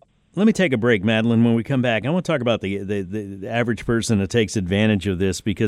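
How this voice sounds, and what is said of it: Usual voice. Nothing is said of it.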